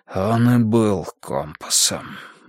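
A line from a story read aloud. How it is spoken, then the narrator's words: Breathed out. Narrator (Russian): выдохнул Нуржан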